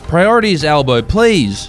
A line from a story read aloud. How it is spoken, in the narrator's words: yelled another woman